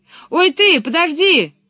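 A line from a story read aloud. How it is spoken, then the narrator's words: Calling after someone. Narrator (Russian): крикнул ей вслед Пеппи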